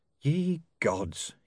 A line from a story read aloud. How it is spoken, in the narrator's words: he said under his breath